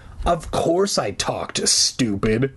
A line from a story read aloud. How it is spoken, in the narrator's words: the rabbit snarled